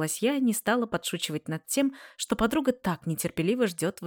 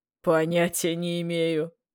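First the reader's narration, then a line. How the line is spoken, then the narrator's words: Solemn announcement. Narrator (Russian): торжественно объявил Коля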